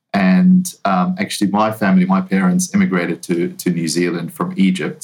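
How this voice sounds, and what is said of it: New Zealand accent. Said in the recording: “you can probably tell by my accent, I'm not originally from the US. I'm, uh, I grew up in New Zealand.”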